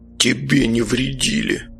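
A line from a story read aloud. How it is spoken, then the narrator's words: Grumbling old man. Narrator (Russian): успел проворчать старик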